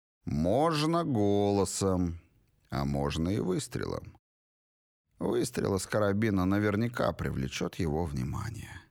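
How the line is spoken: Flat expressionless voice. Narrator (Russian): уточнил Грок еще более невыразительным голосом

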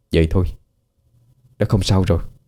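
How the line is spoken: Relieved, speaking softly. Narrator (Vietnamese): Khi thấy đã thực sự an toàn, cậu nhỏ giọng nói

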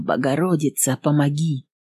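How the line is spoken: Whispered prayer. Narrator (Russian): шептала

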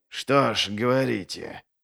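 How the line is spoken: Through clenched gums. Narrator (Russian): процедил Глокта, сжав десны

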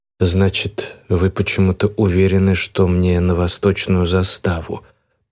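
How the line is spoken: Mumbling. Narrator (Russian): пробормотал

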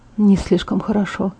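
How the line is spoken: Quiet. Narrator (Russian): тихо произнес он

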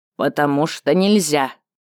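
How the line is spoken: Stern creaky old man's voice. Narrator (Russian): строго проскрипел суровый дед, почтенный старейшина рода валарийских, горных, самых неуправляемых котьяр

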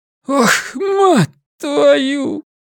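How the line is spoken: Wheezing, bleeding nose. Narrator (Russian): просипела охранница, из носа у нее лилась кровь

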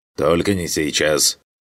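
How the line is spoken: Grumbling mutter. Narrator (Russian): Пробухтел Абир

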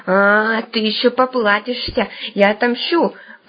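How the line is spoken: Robber woman's hiss. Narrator (Russian): прошипела грабыня

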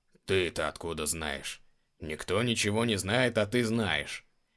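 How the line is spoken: Incredulous snort. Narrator (Russian): Недоверчиво хмыкнул Эдгар

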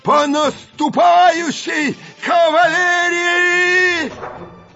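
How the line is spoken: Hoarse cracking shout. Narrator (Russian): Голос осипший, срываясь, прокричал

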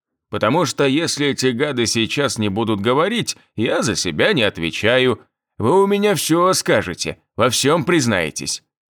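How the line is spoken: Angry bark. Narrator (Russian): рявкнул он на лежащих бандосов

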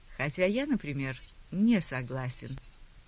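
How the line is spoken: Calm. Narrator (Russian): спокойно сказал Аллен

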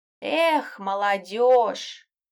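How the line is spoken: Cat's sigh. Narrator (Russian): вздохнул кот

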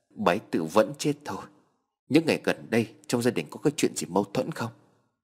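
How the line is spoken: Trembling voice. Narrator (Vietnamese): Anh trai cô cụp run rẩy

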